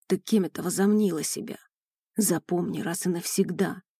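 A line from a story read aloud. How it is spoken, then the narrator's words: Hissing close in ear. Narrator (Russian): шипел он мне в ухо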